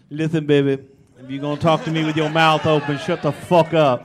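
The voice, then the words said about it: Imitates another person's voice. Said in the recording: “The second best Andre the Giant impression in the business ... Spot on, Andre the Giant ... Sounds just like me”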